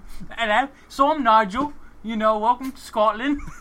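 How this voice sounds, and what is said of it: Put-on British accent slipping Scottish. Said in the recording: “He goes straight back to Scottish. And then he tried a British accent and went straight back to Scottish.”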